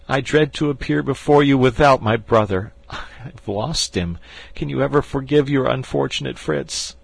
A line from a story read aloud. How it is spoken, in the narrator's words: said he, sobbing